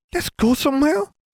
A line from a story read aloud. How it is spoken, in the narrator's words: Gabby pleaded